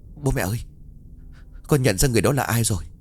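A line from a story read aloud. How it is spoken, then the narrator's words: Stammering. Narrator (Vietnamese): Giáo liền lắp bắp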